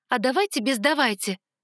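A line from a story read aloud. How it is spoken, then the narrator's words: Snapping back. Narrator (Russian): огрызнулась я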